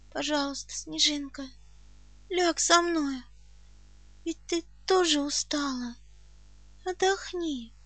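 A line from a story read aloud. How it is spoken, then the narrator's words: Weak pleading voice. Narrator (Russian): прошу слабым голосом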